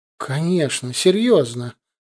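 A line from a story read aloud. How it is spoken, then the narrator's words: Indignant, raised voice. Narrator (Russian): Галия возмущенно повысила голос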